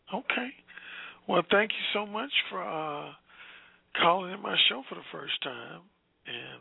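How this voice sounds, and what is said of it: Hoarse voice. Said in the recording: “You say you love my hoarse voice? ... it's been hoarse”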